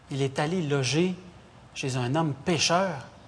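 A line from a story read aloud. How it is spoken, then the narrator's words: Crowd murmuring. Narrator (French): tous murmuraient et disaient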